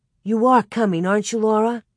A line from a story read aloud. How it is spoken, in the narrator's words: Ida's brown eyes pleaded anxiously when she said